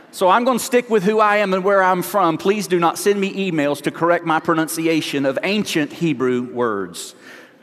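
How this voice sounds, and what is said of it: Slight Southern American accent. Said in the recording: “I have a little bit of a southern accent. And the only thing worse than a little southern accent is a guy with a southern accent”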